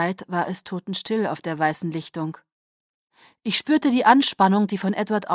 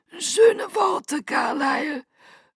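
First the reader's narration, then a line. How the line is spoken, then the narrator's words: Thin-voiced whisper. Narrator (German): flüsterte Aro mit seiner dünnen Stimme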